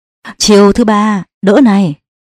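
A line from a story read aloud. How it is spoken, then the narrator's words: Loud laughing. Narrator (Vietnamese): Tự An cười lớn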